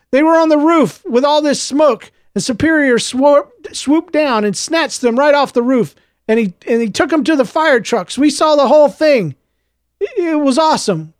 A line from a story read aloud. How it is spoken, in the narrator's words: Clovis shouted